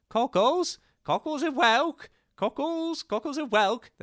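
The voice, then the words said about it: Imitated street vendor's accent. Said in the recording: “That's exactly his accent”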